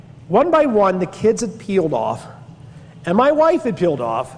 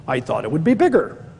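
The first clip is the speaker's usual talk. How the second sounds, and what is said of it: Heavy Italian accent. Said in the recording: “in a really heavy Italian accent”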